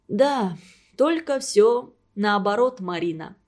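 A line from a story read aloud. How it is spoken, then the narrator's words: Deep sigh. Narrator (Russian): глубоко вздохнул Антон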